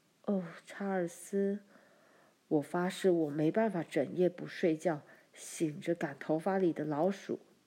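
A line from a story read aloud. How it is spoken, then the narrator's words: Murmuring. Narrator (Chinese): 妈喃喃说道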